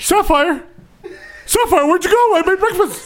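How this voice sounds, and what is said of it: Impression of another man's voice. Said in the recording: “Do your Ray impression.”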